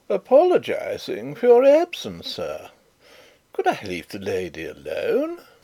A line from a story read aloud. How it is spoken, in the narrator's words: Rupert said in his loud, merry tones